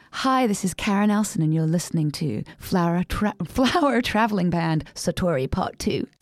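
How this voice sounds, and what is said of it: College radio DJ voice. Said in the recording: “give me your best college radio voice ... I have to do a college radio voice”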